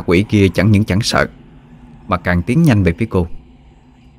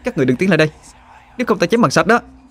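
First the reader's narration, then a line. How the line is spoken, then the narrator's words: Shouted threat. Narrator (Vietnamese): Họa Hương hét lên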